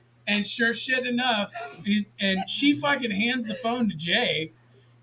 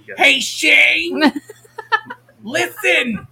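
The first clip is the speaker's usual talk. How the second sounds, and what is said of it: Imitated mother's voice, Jewish accent. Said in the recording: “I'm going to go straight into the fucking impersonation ... Anytime we impersonate her, she becomes Jewish.”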